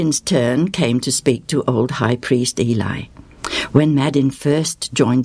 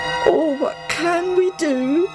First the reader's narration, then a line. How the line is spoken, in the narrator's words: one of them cries out